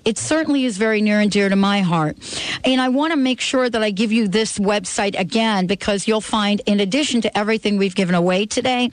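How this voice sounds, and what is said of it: New York accent. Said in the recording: “I must be saying that with like my New York accent.”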